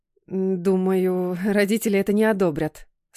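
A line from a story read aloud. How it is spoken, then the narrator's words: Slight stutter, lying. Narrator (Russian): слегка заикаясь, соврала я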